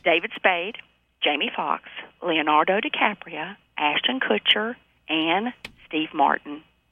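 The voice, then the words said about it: Sweet Southern US accent. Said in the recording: “She had such a sweet Southern accent.”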